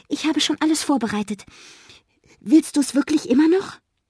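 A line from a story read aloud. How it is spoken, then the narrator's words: Excited call. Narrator (German): Sie ruft aufgeregt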